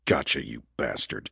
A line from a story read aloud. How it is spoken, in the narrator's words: he muttered